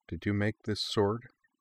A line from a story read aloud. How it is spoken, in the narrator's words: Sakura asked, her voice hushed